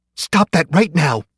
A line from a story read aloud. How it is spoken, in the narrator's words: woman screamed